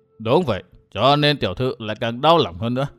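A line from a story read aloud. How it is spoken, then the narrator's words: Stern old man. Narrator (Vietnamese): Lão quản gia nghiêm giọng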